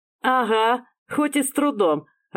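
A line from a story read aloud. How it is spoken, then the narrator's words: Laughing, young woman. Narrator (Russian): рассмеялась девушка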